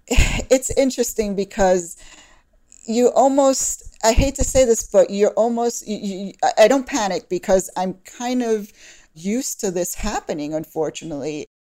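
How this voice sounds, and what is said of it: Brooklyn New York accent. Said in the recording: “I was born in Brooklyn, New York, if you can tell from the accent”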